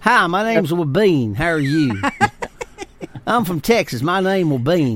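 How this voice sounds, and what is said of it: Put-on Southern US accent. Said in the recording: “sounds very Southern, right? ... It only can be said with a Southern accent.”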